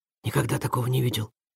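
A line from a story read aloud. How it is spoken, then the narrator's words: Whispered. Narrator (Russian): прошептал Ваня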